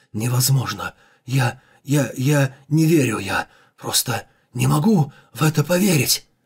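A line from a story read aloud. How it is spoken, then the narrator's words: Forced out, coughing blood. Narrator (Russian): Выдавил он из себя слова, отчаянно кашляя кровью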